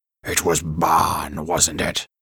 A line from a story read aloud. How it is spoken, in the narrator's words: Beryl growled